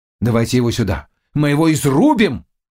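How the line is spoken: Shouting. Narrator (Russian): закричал Мигурский

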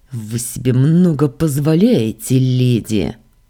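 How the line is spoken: Spat through clenched teeth. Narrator (Russian): Сквозь зубы выплюнул этот самоуверенный тип

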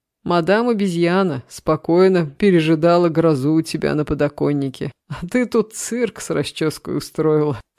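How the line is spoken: Roaring laughter. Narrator (Russian): снова расхохотался Саша

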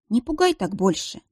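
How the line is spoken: Gentle request, healer. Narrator (Russian): попросила целительница

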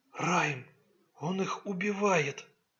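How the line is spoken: Dejected whisper. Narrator (Russian): подавленно прошептала она

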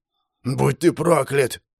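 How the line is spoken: Vicious hoarse rasp. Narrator (Russian): злобно прохрипел

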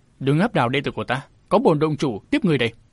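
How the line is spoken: Cold scoff, harsh voice. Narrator (Vietnamese): Hắn cười nhạt một tiếng gằn giọng

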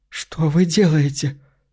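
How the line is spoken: Weak voice, asking. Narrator (Russian): слабым голосом спрашивает Кассандра

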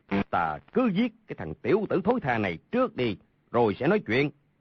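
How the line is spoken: Angry. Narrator (Vietnamese): Hầu Thông Hải tức giận nói

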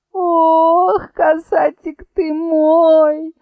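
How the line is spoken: Whimpering. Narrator (Russian): захныкала Баба-Яга

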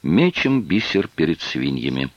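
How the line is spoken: Sad, apologetic. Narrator (Russian): Серж грустно улыбнулся и, как бы извиняясь, сказал

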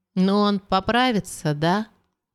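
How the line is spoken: Timid question. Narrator (Russian): робко спросила Лиза

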